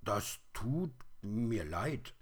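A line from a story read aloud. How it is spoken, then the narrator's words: Little bear stammering. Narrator (German): stammelte der kleine Bär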